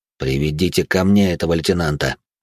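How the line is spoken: Through gritted teeth. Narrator (Russian): сквозь зубы процедил Вивьен

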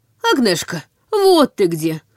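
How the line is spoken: Old man, relieved exhale. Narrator (Russian): с явным облегчением выдохнул седовласый старик

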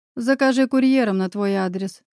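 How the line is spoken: Chuckling. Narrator (Russian): хохотнул я над другом

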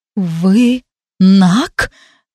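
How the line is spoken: Trembling question. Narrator (Russian): дрожащим голосом спросила

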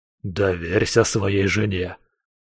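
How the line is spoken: Hissing man. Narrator (Russian): прошипел викинг

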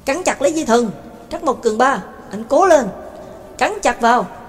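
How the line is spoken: Loud shout. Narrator (Vietnamese): Anh ta hét lớn

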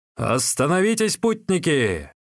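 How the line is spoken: Loud group shouting. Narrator (Russian): громко выкрикивали они

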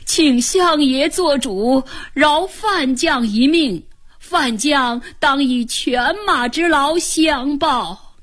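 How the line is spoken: Wailing. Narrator (Chinese): 安禄山大哭

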